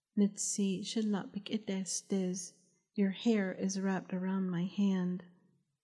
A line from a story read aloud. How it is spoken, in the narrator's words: Hashkeyilnaba hoarsely whispered